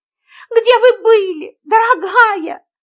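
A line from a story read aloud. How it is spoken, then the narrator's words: Tearful. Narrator (Russian): плачущим тоном произнесла мисс Фридлендер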